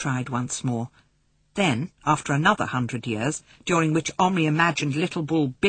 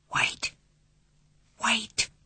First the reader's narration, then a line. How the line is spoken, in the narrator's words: breathed Patrick